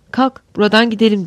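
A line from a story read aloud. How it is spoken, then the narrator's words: Plain. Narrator (Turkish): dedi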